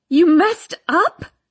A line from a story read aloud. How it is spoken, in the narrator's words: I scream